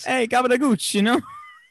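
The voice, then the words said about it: Put-on Italian-American accent. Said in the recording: “giving them Italian accents?”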